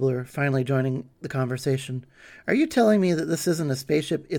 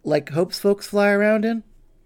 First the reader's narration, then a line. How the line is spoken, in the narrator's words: Hope chuckled